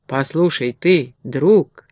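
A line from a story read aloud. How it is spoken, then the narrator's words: Gentle, affectionate. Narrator (Russian): Ласково обратился Тили-Вили к медведю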